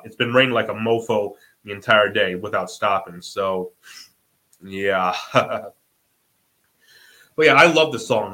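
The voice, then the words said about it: Congested, slightly off voice. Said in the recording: “I have allergies today. Like I don't either allergies or a cold. So yeah, like my voice. That's why my voice sounds a little off”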